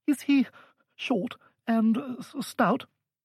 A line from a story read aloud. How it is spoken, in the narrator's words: he asked nervously